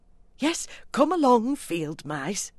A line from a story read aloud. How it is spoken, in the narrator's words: cried the mole eagerly